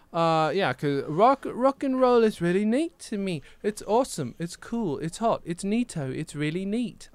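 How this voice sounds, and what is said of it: Put-on English accent. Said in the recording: “I'm doing a better English accent than I did at the time”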